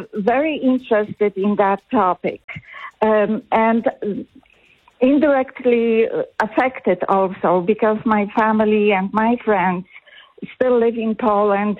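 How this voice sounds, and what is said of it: Polish accent. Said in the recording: “I am of Polish heritage, very, as you can tell from my accent”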